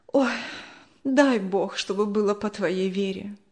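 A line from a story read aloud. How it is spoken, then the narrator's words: Sigh. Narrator (Russian): вздохнула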